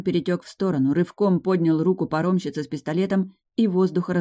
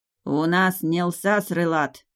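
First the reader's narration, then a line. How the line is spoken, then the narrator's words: Growl. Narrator (Russian): рыкнул он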